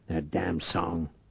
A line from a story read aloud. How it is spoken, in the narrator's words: Reich muttered